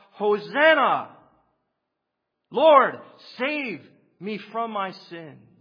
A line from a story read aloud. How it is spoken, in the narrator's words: A real follower of Jesus who knows by salvific experience what it is to shout